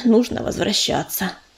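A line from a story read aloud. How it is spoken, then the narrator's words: Sighing. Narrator (Russian): вздохнул ежевика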